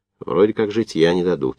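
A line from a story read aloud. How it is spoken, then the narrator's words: Calm. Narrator (Russian): спокойно сказал Сапрыкин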